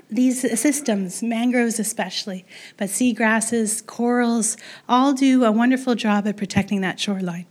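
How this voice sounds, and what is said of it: Hoarse, strained, fading voice. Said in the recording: “sorry, I'm losing my voice.”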